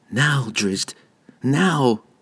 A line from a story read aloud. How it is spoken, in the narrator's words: Regis whispered, praying that his friends were about and ready to make a desperate last-minute rescue